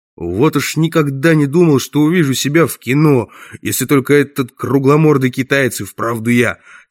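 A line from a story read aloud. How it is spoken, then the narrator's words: Plain. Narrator (Russian): сказал Сканлон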